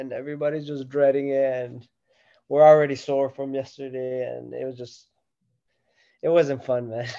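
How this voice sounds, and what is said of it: Flat, tired monotone voice. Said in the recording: “that's why I'm monotone today ... He's like looking down ... I need a nap.”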